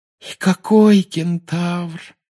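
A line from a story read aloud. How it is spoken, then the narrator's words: Sighing. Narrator (Russian): вздохнула Парвати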